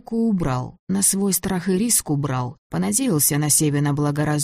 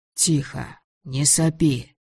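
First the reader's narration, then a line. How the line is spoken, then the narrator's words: Hurried whisper. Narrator (Russian): успел шепнуть Григорий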